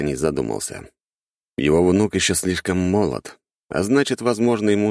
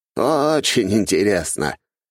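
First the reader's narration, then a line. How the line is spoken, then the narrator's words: Old man's snort. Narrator (Russian): хмыкнул старик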